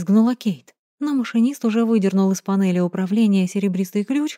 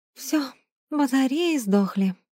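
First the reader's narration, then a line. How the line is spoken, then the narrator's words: Breathed out exhausted. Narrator (Russian): выдохнула Кейт, оседая на пол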